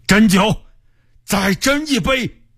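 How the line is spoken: Loud. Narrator (Chinese): 大声说

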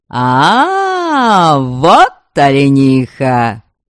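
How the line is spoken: Young men yelling, girls shrieking. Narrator (Russian): Орали парни, устремляясь вдогонку с завизжащими девушками

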